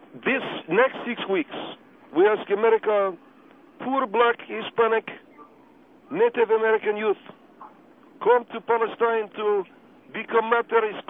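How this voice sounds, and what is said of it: Thick foreign accent. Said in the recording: “you have a thick accent”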